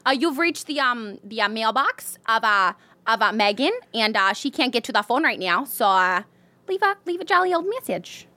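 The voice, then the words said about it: Put-on accent. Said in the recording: “In that accent. ... I literally almost made this like Swedish.”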